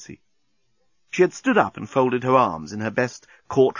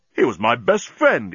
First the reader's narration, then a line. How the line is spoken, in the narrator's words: exclaimed Dan